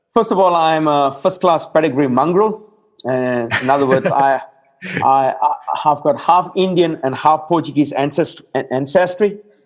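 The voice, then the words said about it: Slight non-Australian accent. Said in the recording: “you have a bit of an accent”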